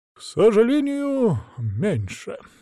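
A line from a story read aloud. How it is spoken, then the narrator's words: Feigned sigh. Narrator (Russian): делано вздохнул Василек им в спину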